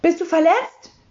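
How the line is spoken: Fearful question. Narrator (German): fragte das Sams ängstlich

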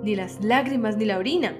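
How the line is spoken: Exclaiming. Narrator (Spanish): exclamó Avenarios

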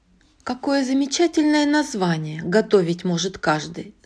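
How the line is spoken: Mocking declaration. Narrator (Russian): заявил он однажды насмешливо

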